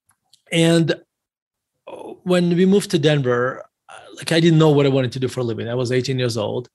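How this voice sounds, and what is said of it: Russian accent. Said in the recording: “as you can tell by my accent... I was born in Russia”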